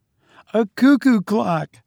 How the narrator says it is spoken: Doris cried

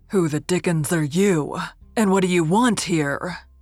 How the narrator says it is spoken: he demanded in his great resounding voice, with a fierce scowl

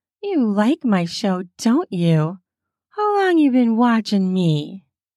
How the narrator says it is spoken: He gives a deep chuckle

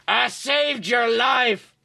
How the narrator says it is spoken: he yelled angrily

